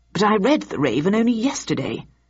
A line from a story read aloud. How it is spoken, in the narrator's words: added Victor in a confused tone